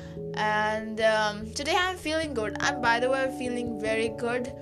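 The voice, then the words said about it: Strained voice. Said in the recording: “my voice is not that great ... I just sang out so much loudly ... my voice is not sounding well”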